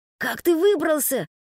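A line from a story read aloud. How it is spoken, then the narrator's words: Hiss. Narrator (Russian): прошипел он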